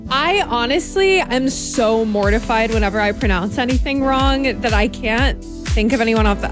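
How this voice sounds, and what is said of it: Minnesota regional accent. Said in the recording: “Your Minnesota accent's sinking in a little bit.”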